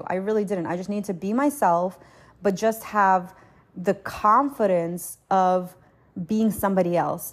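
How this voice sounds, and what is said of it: New Jersey accent. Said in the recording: “I didn't even know I had a Jersey accent ... you do this Jersey thing ... this whole Jersey girl thing”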